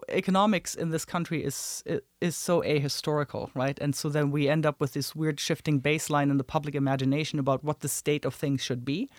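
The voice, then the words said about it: Non-American foreign accent. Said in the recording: “you can hear from my accent, I wasn't born in the States”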